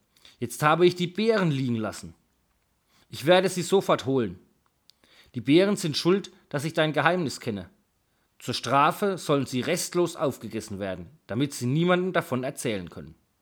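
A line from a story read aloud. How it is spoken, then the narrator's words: Calling. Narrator (German): rief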